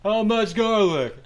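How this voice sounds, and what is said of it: Exaggerated bad Italian accent. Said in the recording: “a bad Italian accent... This guy has brain trauma”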